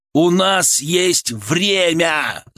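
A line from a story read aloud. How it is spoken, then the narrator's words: Yell. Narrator (Russian): заорал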